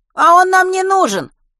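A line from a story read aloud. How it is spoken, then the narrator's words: Shouting while moving. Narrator (Russian): крикнул на ходу Белкин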